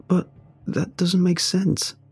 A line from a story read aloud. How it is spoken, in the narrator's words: I murmur in shock